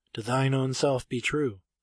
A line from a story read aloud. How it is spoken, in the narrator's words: I said softly